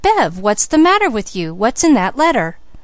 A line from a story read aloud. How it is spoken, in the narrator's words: Felix exclaimed